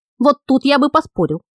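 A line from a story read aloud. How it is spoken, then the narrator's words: Skeptical snort. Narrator (Russian): хмыкнул Ангес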